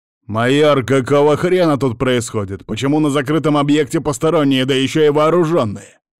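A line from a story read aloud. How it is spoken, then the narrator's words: Angry bark. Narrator (Russian): рявкнул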